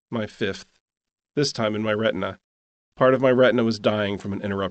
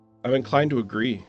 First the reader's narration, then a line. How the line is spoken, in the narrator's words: she said